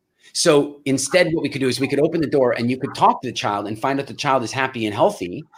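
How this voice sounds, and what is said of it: North American accent. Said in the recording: “I must sound a bit strange with my weird North American accent.”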